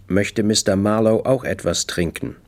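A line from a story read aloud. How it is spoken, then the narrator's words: Calm. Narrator (German): Wade ruhig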